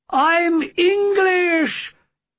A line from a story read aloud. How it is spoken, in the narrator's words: I shouted back desperately